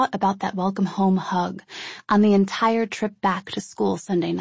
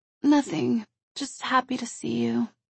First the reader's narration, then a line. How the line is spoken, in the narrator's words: she meekly responded